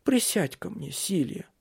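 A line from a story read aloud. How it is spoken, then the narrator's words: Weak voice. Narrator (Russian): сказал слабым голосом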